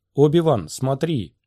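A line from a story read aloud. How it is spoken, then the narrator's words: Shout. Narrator (Russian): кто-то крикнул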